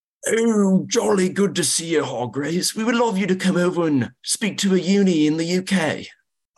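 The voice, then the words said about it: Put-on British accent. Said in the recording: “do it in a British accent? ... That might have been absolutely awful. ... That was phenomenal.”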